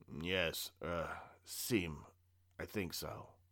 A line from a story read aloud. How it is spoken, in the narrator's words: replied with a croak